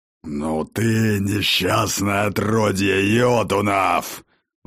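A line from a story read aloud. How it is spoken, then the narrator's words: Sudden growl. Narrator (Russian): Вдруг зарычал владыка Асгарда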